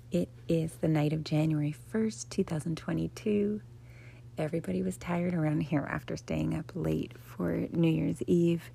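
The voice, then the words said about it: Quiet, hushed speaking voice. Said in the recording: “my voice is quiet”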